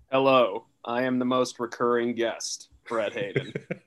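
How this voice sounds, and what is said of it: Flat monotone delivery. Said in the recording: “monotone charm”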